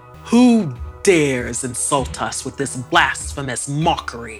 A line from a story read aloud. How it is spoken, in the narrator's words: His roar